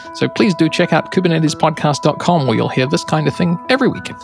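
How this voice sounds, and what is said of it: New Zealand accent. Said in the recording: “the New Zealand accent”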